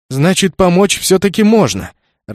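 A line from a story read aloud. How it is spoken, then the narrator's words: Joyful exclamation. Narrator (Russian): радостно воскликнул Наоки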